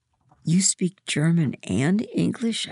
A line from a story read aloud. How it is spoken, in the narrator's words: I whisper